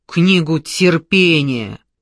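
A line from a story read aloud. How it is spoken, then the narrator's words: Angry bark. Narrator (Russian): Гневно рявкнул белобрысый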